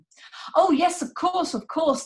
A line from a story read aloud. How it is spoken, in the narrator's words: exclaim